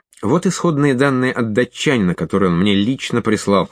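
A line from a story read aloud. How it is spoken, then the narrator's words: Plain. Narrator (Russian): сказал я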